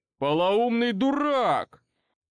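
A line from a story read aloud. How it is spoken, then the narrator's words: Furious shouting. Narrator (Russian): прокричал Каан, в бешенстве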